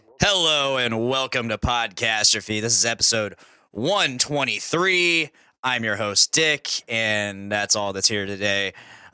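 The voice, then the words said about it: Slightly hoarse voice. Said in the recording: “my voice is a little hoarse.”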